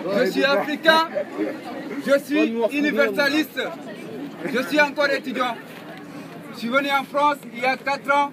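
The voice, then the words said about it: Speaks French with an accent. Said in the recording (French): “rigolez un peu mon accent”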